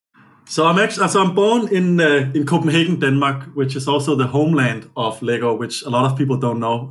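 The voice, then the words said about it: Slight non-American accent. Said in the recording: “detect a little bit of an accent there ... you were not born and raised in America”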